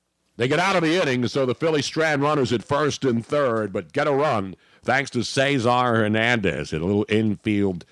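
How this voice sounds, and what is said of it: Imitates a baseball play-by-play announcer. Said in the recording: “are you doing a play-by-play impersonation of Harry Callis? ... Why, of course. Yes.”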